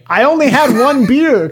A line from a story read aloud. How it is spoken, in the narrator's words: a naked Florida man in a Publix parking lot screaming